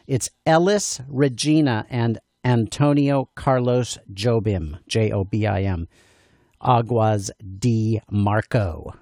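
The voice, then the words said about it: Americanized pronunciation of Portuguese names. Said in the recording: “I'm going to say it with an American accent so you know what to search for on the YouTubes ... Okay, now I'll try to pronounce a little better.”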